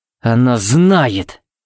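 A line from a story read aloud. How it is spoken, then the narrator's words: Growled. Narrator (Russian): буквально прорычал Тикс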